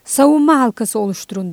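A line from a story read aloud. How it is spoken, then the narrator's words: Shouted. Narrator (Turkish): diye bağırdı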